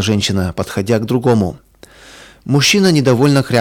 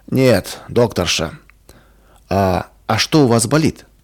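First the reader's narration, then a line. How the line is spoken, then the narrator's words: Sick man, sharp and angry. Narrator (Russian): Больной сердито посмотрел на Ваньку и резко бросил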